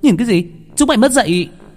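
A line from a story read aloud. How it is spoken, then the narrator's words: Yelling. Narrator (Vietnamese): Cô gái la lên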